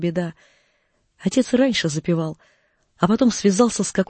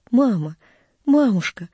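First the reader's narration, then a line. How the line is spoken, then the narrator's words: Tender, affectionate. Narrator (Russian): проговорил он ласково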